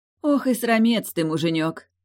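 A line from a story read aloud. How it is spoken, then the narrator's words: Gentle sigh, no malice. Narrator (Russian): Без ревности и злобы вздохнула Яра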